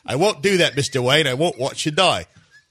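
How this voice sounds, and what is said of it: Bad Michael Caine impression. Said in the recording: “this is my Michael Caine. Listen, I'll do my Michael Caine for you. It sounds like this. ... That's a bad Michael Caine.”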